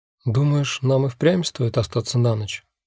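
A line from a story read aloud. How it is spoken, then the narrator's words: Quiet question. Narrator (Russian): тихо спрашиваю я Виолу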